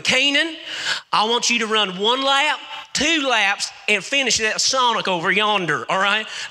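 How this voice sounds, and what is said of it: Deep country accent. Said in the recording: “my coach had this deep country accent.”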